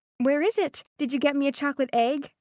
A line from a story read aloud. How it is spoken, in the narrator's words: I eagerly asked